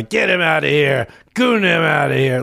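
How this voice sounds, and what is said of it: Bad Trump impression. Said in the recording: “I'm doing a bad impression.”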